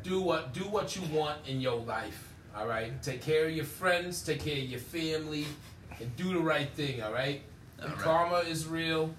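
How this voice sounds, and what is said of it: Put-on Italian-American East Coast accent. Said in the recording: “you sound like an East Coast spaghetti”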